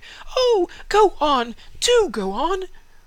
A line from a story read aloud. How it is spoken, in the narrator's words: the children cried